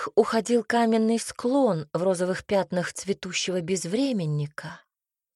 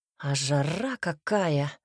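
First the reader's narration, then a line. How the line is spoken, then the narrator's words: Grumbled. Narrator (Russian): буркнул Альберт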